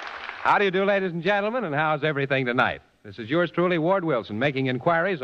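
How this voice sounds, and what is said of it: Usual voice. Nothing is said of it.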